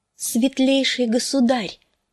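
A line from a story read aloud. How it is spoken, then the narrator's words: Soft slightly trembling voice. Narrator (Russian): проговорила она негромким, чуть дрогнувшим голосом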